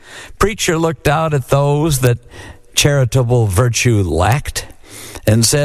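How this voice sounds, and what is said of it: Usual voice. Nothing is said of it.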